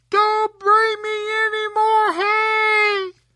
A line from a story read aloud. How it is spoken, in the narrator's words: Tom called out